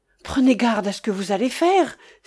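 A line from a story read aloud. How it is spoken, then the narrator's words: Exclaimed. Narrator (French): s'écria Wamba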